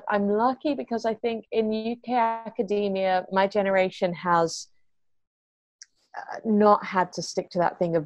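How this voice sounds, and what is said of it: Mixed Australian accent, slightly transatlantic. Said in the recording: “I'd got an Australian accent of sorts... it sounds a bit transatlantic. So my tert sounds like a dirt sometimes... my accent is pretty mixed up”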